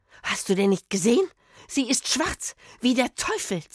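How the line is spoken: Hiss. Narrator (German): zischte

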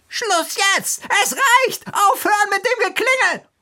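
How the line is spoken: Woman screaming over intercom. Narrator (German): eine Frauenstimme schrie

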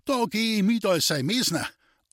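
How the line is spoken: Delighted call. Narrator (German): rief der Hüter Hannes erfreut

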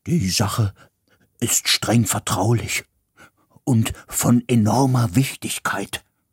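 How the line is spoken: Murmured. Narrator (German): raunte

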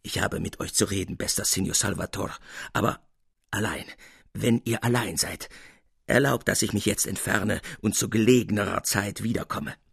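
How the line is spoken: Laborious stammer. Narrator (German): stammelte Capuzzi mühsam

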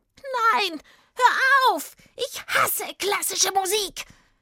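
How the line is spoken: Witch screaming. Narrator (German): Als die Hexe diese Töne hörte, schrie sie

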